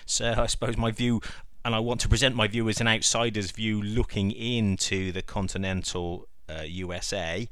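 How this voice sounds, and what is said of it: Non-American accent. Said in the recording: “you can tell by the accent that I'm not American”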